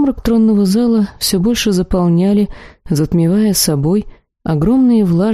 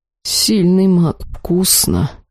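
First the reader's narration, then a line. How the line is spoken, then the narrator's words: Mutter. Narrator (Russian): пробормотал Тахир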